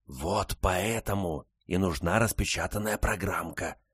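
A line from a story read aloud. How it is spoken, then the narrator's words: Whisper. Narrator (Russian): прошептала большая Барбара сыну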